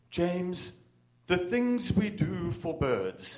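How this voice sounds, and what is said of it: Very clipped British accent. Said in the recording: “in this very clipped British accent”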